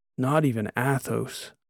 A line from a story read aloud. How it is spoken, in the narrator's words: mumbled, completely in awe